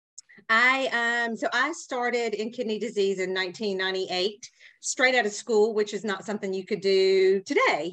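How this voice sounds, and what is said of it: Southern American accent. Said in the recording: “I'm in the South, obviously by my accent”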